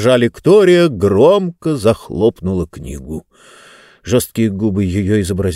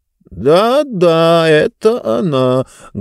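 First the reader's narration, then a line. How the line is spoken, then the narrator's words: Muffled reply from book. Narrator (Russian): глухо отозвалась книга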